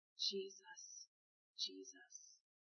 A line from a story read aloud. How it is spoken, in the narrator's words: murmured